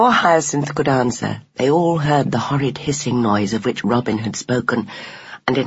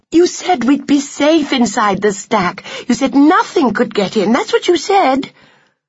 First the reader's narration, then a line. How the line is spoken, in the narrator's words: cried the 8 remaining mousekins